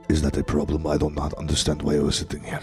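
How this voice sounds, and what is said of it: Very deep movie-villain voice. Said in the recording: “you have a very deep voice. ... Like a bad guy from like an 80s movie or something.”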